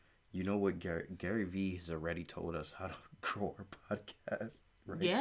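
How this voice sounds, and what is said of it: Usual voice. Nothing is said of it.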